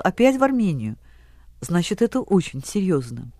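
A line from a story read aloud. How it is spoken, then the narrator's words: Sighing, serious. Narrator (Russian): она вздохнула и, серьезно сказала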